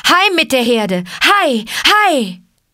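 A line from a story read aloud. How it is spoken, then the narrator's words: Shouting. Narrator (German): schrie er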